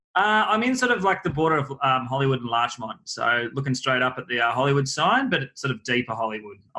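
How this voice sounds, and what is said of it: Strong accent. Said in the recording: “I don't know who's got a stronger accent. Is it you or I? ... I think I'm stronger”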